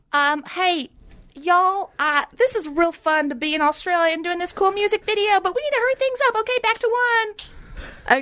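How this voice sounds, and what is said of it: Put-on accent. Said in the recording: “I just did an accent because you just did an accent.”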